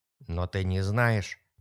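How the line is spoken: Incredulous mutter. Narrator (Russian): пробормотал Том, словно не в силах поверить ее словам

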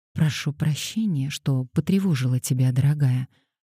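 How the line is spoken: Soft gentle start. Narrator (Russian): мягко начала она

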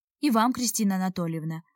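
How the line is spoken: Even voice. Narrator (Russian): ровным голосом отозвался Алик

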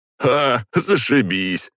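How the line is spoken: Laughing. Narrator (Russian): рассмеялся Белоснежка

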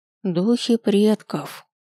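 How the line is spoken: Quiet yet space-filling voice. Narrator (Russian): Ее голос звучит негромко, но наполняет собой все пространство

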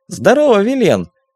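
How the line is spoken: Joyful shout. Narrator (Russian): обрадованно крикнул тот

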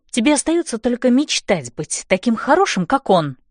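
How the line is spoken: Sharp. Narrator (Russian): резко говорю я

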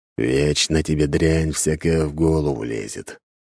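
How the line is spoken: Grumbling. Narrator (Russian): проворчал Дориан

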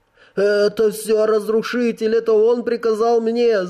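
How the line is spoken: Whimpering, face down. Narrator (Russian): заскулил человек, не поднимая лица

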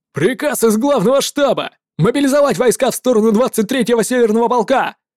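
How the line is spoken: Shouting messenger. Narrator (Russian): прокричал болтающим офицерам посыльный

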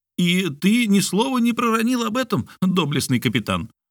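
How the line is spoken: Exclaimed. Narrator (Russian): воскликнул Ардан

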